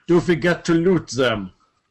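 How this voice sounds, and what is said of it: Put-on accent for a character. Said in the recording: “That was my best accent for Natalia.”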